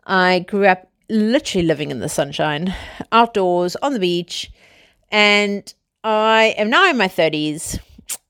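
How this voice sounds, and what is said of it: South African accent. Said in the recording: “I'm South African, as you guys know from my dodgy accent.”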